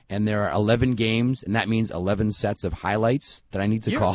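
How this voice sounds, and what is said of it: Hoarse, scratchy voice. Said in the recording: “it was like scratchy and felt crappy ... I think I just lost my voice ... it's a little better today”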